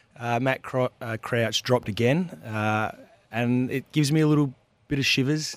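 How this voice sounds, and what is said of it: Husky, hoarse voice. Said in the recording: “my voice is a little bit husky ... It is a bit husky ... I've been crook all week ... if I'm a little bit husky”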